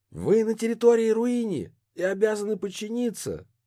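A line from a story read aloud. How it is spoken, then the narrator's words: Shout. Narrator (Russian): крикнул арбалетчик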